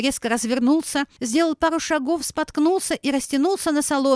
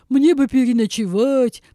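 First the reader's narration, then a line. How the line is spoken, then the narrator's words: Deep bass voice. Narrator (Russian): пробасил Миша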